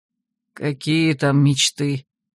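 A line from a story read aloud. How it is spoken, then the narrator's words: Bitter distracted mutter. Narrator (Russian): Еще не вынырнув из своих дум, горько буркнул Гудранс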